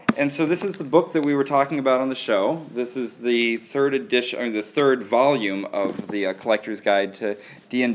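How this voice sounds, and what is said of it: Rough, worn-out voice. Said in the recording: “My voice is terrible”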